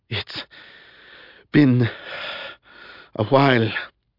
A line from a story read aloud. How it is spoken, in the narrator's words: he gasped